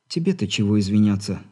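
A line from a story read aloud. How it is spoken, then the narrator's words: Sighing again. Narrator (Russian): снова вздохнула Алина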